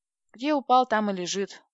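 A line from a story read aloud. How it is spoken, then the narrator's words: Gloomy. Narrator (Russian): мрачно сказала я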